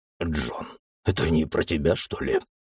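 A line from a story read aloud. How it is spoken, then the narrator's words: Whispering in ear. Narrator (Russian): прошептал мне на ухо Джек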